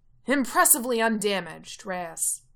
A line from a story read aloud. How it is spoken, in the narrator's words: Coach yells